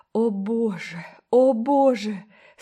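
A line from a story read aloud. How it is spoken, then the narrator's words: Moaning, distraught. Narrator (Russian): стонала Гертруда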